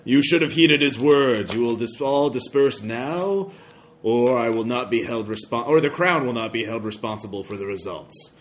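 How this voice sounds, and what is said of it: Unnatural deep yelling villain voice. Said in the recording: “yelling out in a very unnatural and deep voice.”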